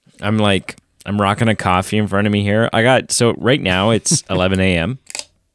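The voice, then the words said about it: Tired, exhausted-sounding voice. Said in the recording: “I am exhausted. I'm so freaking... I don't know if you can like hear it in my voice.”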